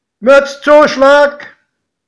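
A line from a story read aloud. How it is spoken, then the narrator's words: Calling out. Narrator (German): rief der Schaffner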